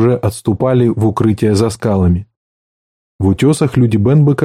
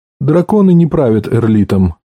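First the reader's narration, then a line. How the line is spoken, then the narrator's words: Dry flat statement. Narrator (Russian): сухо сказал Джоз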